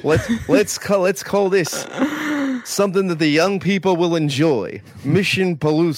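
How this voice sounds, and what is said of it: Put-on New Jersey gangster accent. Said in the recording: “like a New Jersey gangster accent”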